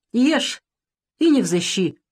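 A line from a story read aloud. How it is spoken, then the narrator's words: Angry woman. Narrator (Russian): сердито сказала она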